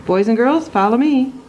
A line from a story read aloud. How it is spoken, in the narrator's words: she called out